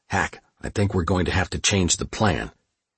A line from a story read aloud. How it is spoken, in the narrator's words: He whispered